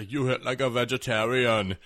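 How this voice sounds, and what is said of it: Poor impression of another person's voice. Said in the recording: “sorry, Arnold, for the horrible impersonation.”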